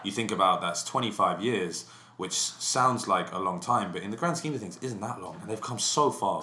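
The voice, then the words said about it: English accent. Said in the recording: “how do the English accent work on the American girls”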